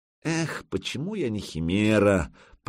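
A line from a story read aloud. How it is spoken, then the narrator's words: Mumbling. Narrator (Russian): пробормотал Фрам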